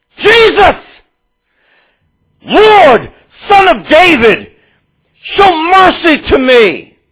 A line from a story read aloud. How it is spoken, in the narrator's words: he shouted, saying